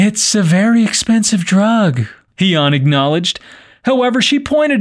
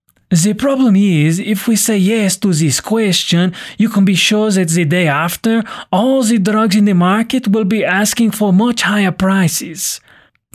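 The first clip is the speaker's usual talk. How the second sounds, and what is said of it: Put-on French accent. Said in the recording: “that's my best French accent. I don't think it's that bad, though.”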